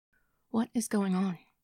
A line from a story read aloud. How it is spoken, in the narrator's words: asked, and was surprised at how evenly her voice came out